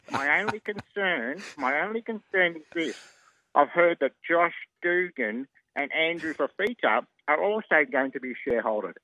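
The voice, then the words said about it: Imitates another person's voice. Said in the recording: “Oh, that is a very, ... that's very ... good impersonation.”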